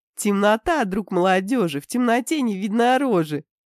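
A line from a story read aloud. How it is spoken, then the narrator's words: Giggling. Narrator (Russian): хихикала Дианка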